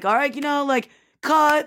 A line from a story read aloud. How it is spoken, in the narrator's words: we're all screaming things like Matt's like